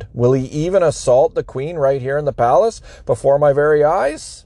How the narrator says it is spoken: The king exclaimed

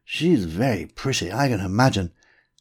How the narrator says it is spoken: I growled in response

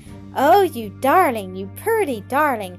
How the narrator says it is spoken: cried Adelaide

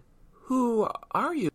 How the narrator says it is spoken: stammered Rita

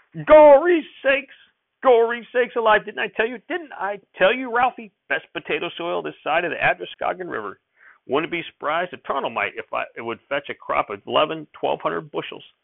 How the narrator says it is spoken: he'd shout

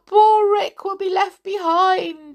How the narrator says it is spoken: she sobbed

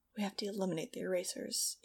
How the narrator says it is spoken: he murmured

